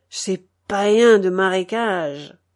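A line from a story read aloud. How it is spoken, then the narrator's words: Grumbling. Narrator (French): grommelait-il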